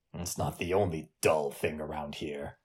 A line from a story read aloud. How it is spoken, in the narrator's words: the captain said under his breath